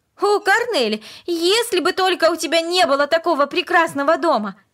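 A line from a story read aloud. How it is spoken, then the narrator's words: Passionate sudden exclamation. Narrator (Russian): Вдруг она страстно воскликнула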